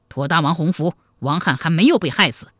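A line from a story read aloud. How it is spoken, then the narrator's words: Cold. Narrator (Chinese): 王汉冷冷地说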